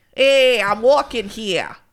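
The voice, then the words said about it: Put-on New York accent. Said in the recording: “what's my New York accent? ... It's pretty good.”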